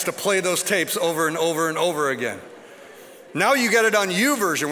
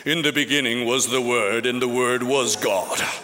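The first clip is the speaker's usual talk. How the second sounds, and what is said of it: Put-on British accent, narrator style. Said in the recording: “British accent.”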